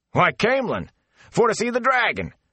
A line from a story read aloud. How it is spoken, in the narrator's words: the fellow shouted back without stopping